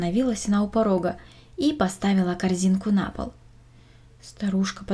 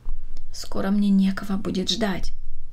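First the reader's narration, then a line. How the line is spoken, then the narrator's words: Old woman answering. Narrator (Russian): ответила бабушка Катерина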